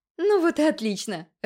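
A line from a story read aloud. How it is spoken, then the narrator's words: Laughing. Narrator (Russian): рассмеялась Аврора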